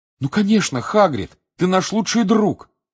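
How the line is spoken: Exclaimed. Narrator (Russian): воскликнул Гарри

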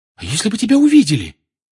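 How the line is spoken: Frightened question. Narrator (Russian): испуганно спросила Гермиона

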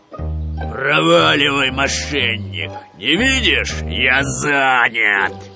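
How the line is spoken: Growling. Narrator (Russian): зарычал

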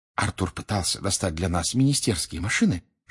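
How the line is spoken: Whisper. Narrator (Russian): шепнула она Гарри

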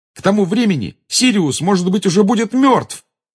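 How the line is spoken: Angry exclamation. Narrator (Russian): воскликнул Гарри, в сердцах

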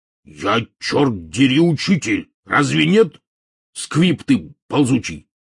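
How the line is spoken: Sudden angry bark. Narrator (Russian): мгновенно вспыхнув, рявкнул Хагрид

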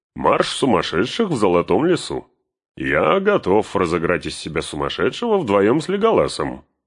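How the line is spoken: Cheerful. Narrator (Russian): добавил он весело

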